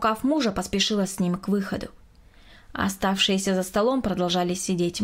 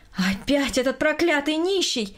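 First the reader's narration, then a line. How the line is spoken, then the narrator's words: Loud angry exclamation. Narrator (Russian): громко воскликнула Берта Петровна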